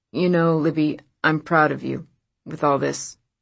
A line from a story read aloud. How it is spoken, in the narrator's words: Lyle said, stiffly